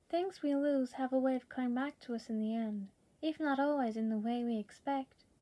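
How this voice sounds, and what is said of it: Imitates a fictional character's voice. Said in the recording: “an impression of a character ... such a good impression”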